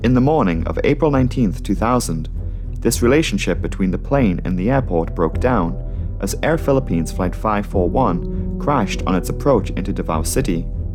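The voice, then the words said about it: Vague European accent. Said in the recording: “He's got this really vague European accent.”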